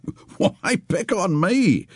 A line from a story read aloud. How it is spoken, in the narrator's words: Geordie laughed